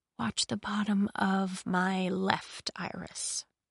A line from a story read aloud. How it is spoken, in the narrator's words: she whispered